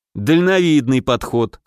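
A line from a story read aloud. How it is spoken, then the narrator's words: Snorting. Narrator (Russian): хмыкнул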